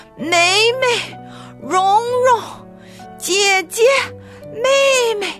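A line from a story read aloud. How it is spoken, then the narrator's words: Loud calling. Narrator (Chinese): 她们边走边互相高喊着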